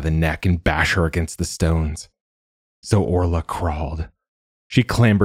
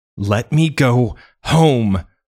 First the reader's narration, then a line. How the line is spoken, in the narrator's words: cried